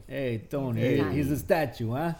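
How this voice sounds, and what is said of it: Put-on Italian mafia accent. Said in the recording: “sounds like a deep in the Italian mafia, you know, like a mafia guy ... These accents are great ... they're not great”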